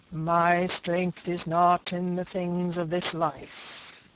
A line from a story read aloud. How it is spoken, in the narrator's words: said the divine, speaking in a hollow, sepulchral voice